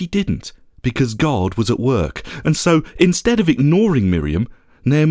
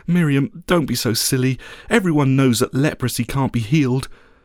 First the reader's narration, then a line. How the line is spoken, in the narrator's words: Naaman's wife would have simply smiled sadly and said